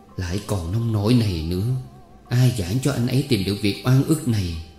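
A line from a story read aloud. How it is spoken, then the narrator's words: Tearful sighing mutter. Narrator (Vietnamese): Chị đi nuôi thở dài, ứa nước mắt lẩm bẩm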